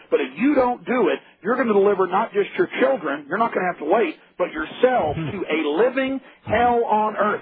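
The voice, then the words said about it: Earnest, almost frantic delivery. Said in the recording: “you can hear the earnest in my voice. I'm almost frantic”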